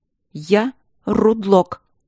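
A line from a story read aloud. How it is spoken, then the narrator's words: Sharp. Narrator (Russian): сказала Алина резко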